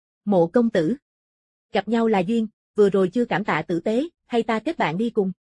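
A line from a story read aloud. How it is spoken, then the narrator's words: Smiling warm invitation. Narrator (Vietnamese): Cố Anh Phát mỉm cười mời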